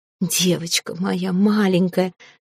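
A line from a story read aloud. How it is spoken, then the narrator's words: Sobbing whisper. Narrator (Russian): шептала эта женщина, даже не пытаясь сдержать всхлипы, готовые перейти в рыдание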